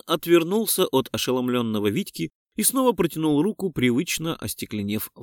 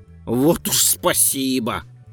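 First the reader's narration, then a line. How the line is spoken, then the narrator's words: Snorting vagrant. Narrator (Russian): фыркнул бомж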